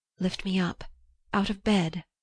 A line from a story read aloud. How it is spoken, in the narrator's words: whispered